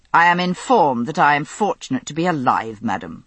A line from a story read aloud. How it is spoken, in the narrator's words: he answered coldly